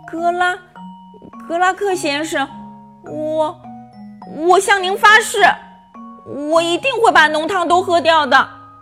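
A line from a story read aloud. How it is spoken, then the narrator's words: Stammering. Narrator (Chinese): 他结结巴巴地说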